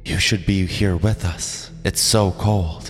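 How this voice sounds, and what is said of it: Eerie whisper. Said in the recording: “the whisper came echoing down the line”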